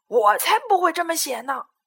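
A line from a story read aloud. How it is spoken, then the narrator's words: Lion roaring. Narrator (Chinese): 狮子大吼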